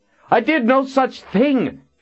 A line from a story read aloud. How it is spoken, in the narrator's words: Tristan shouted